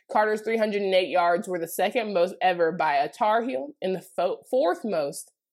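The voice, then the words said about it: Noticeable regional accent, growing stronger. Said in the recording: “You hear my accent getting stronger?”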